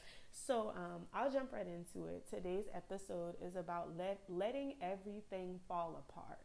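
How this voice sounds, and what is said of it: Congested, stuffy-nosed voice. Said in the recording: “I am a little stuffed right now, so if I sound congested,”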